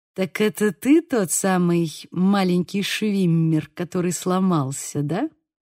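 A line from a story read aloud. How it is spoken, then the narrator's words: Gloating purr. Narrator (Russian): промурлыкал Греймс, злорадно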